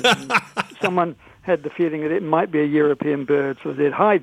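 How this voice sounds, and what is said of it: English accent. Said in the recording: “they'd recognized my English accent”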